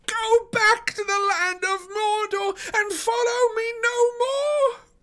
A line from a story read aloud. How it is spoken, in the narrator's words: His voice sounded thin and shrill in his own ears